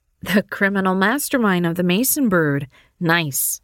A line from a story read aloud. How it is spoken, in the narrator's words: Mary laughed